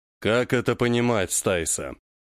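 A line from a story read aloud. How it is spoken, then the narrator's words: Calm voice. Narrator (Russian): Джо-Джо спокойным голосом обратился к девушке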